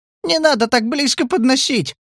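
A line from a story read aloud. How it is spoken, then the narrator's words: Frightened squeak. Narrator (Russian): пропищал Валя, вжимаясь в стул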